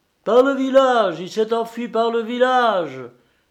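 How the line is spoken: Old woman shouting. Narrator (French): criait une vieille femme

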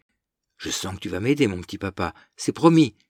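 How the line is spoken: Exclaimed. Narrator (French): s'écria-t-elle

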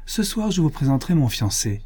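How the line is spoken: Cheerful. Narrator (French): dit gaiement Miette

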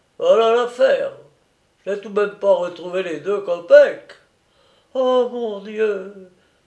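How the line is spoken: Woman sighing. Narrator (French): soupirait la femme

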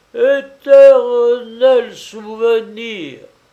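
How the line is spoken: Savage, furious voice. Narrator (French): répétait d'une voix sauvage, furieuse

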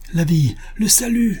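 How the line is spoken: Shouted. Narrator (French): cria Buffalo Bill

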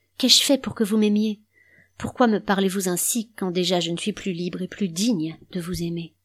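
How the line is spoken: Sad protest. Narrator (French): Elle protesta tristement

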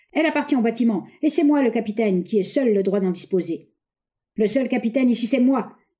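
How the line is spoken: Uncharacteristic furious shout. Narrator (French): hurla Slug, se départant pour une fois de son flegme habituel

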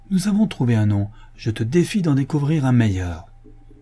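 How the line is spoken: Calling out from afar. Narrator (French): s'écria Rebecca du plus loin qu'elle le vit

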